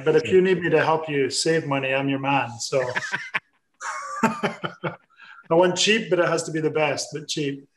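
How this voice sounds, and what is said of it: Scottish accent. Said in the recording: “I am Scottish ... A bit of an accent”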